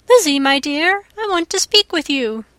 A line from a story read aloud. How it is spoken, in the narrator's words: Bennet half opened the door and called out